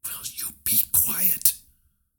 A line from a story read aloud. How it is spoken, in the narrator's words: Hiro whispered